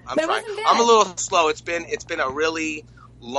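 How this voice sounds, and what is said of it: Usual voice. Nothing is said of it.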